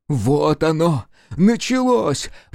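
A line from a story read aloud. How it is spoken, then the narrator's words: Wildly excited exclamation. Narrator (Russian): воскликнул пьяный от возбуждения Никитин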